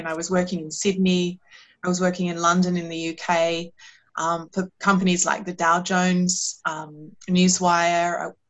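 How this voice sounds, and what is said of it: Australian accent. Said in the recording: “As you can hear, my accent is Australian.”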